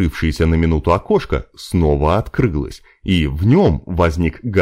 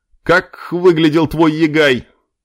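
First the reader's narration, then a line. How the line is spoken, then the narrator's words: Indistinct shouting. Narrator (Russian): Прокричали неразборчивое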